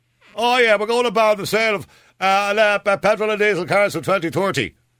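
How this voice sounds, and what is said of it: Imitates another person's voice. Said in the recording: “that's not a very good Leo Varadkar impersonation”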